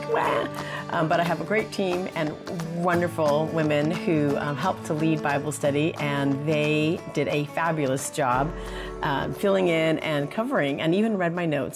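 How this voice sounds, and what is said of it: Sick-sounding voice. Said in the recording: “as you can tell in my voice, I've been sick”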